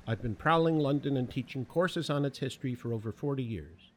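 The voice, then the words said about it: Speaks with a noticeable non-local accent. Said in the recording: “Despite my accent,”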